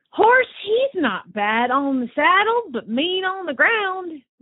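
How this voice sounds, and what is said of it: Put-on Southern US accent. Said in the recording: “we are doing this in a Southern accent... trying to do a Southern accent”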